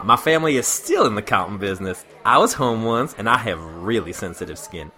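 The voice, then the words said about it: Effeminate Southern New Orleans man's voice. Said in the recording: “He was from New Orleans ... He was a pretty effeminate fella ... I can't do this justice without doing the voice.”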